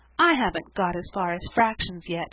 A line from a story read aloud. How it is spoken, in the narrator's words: sighed Sarah